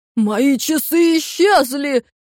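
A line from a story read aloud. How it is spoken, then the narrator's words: Thunderous shout. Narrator (Russian): громовым голосом выкрикнул он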